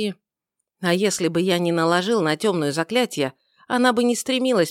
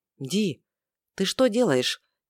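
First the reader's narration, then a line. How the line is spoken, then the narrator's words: Quiet question. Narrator (Russian): Тихо поинтересовался Шем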